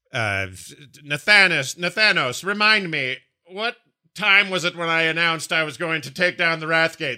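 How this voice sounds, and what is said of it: Poor impression of Sylvanas. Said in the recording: “That's a terrible impression of Sylvanas. I can't really do her”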